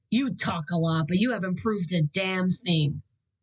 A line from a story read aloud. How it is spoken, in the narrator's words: Donovan growled